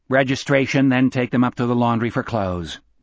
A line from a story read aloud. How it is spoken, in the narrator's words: Gardner said in a flat voice